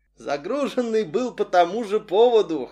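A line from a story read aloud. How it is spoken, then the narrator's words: Short chuckle. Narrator (Russian): хохотнул товарищ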